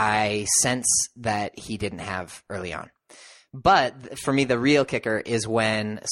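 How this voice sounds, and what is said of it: Usual voice. Nothing is said of it.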